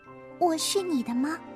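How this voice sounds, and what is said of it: Quiet, soft-spoken question. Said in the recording (Chinese): “小声的问”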